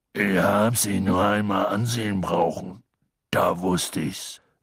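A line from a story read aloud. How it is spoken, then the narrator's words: Strangely hoarse voice. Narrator (German): sagte er mit seltsam rauer Stimme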